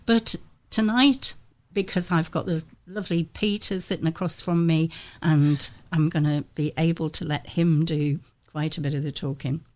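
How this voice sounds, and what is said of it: Croaky, hoarse voice. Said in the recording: “I am still a little bit croaky ... lost my voice ... croaking away”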